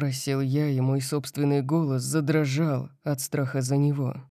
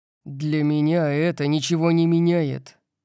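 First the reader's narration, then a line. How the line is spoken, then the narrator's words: Growled. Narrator (Russian): прорычал я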